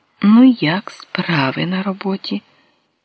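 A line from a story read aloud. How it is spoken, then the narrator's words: Gentle question. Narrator (Ukrainian): Він лагідно спитав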